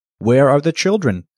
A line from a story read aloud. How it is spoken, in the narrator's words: asked spring